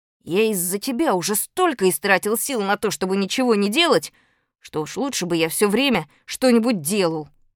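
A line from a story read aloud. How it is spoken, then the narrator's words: Unpleasant voice. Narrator (Russian): сказал Малинин каким-то противным голосом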